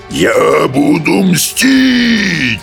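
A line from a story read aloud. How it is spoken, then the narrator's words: Furious roar, struggling. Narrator (Russian): взревел брехун, яростно выпутываясь из топора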